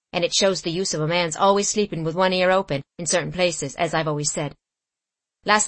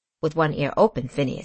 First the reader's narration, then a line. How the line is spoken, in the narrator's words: said Simon quietly